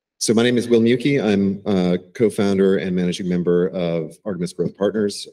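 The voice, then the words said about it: Hoarse, froggy voice. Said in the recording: “Sorry about my voice. I have a little bit of a frog in my throat”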